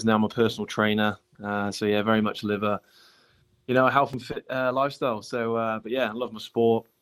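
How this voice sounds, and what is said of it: English accent. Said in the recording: “as you can probably tell by the accent, obviously a pommy.”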